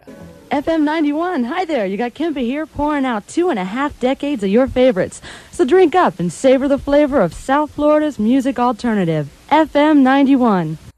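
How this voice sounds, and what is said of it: Put-on high radio announcer voice. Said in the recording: “We call that telephone voice ... I was talking from like up here ... That just wasn't my actual voice. I was just trying to sound like I was an announcer.”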